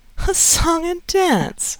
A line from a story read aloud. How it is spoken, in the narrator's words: she said, in a deliberate, sweet voice that seemed to clothe her words in a diaphanous garment of impalpable irony